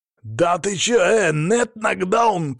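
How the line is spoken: Shouting while struggling. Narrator (Russian): кричал он, дергаясь

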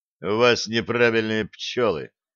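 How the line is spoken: Gloomy. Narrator (Russian): мрачно сказал Блат

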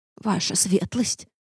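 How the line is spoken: Mumbled. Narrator (Russian): промямлила паучиха

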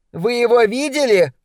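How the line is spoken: Shouted from a distance. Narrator (Russian): прокричала Эвелин с террасы своего дома

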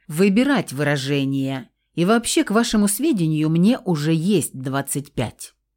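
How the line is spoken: Offended, menacing. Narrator (Russian): грозно начал оскорбленный блондин

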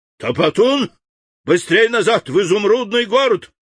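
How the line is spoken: Shout. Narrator (Russian): крикнул он

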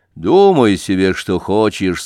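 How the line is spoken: Plain. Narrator (Russian): сказал Данила

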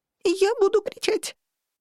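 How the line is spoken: Strangled squeak. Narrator (Russian): сдавленно пискнула я

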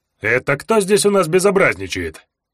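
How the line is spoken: Cheerful question. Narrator (Russian): весело спросил варвар

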